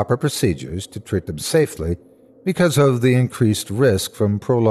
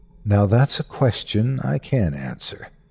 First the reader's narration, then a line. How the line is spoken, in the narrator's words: she said softly